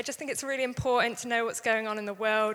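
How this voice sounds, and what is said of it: English accent. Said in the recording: “my accent ... I'm English”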